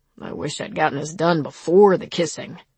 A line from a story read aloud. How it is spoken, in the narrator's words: he grumbled